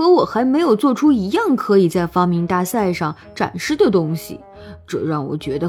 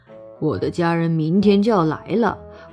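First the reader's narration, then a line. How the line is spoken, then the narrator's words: Sighing. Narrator (Chinese): 奥肯叹了一口气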